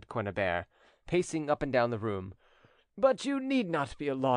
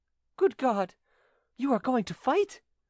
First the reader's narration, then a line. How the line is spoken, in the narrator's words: she exclaimed